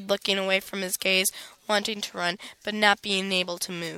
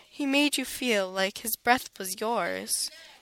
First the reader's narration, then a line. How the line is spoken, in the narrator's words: said, his words landing softly on the back of my neck